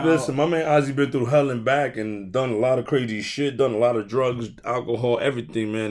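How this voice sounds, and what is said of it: Hoarse, failing voice. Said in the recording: “I sound like shit, man. I'm kind of losing my voice”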